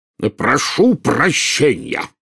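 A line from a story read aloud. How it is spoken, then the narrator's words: Roar. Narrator (Russian): взревел премьер-министр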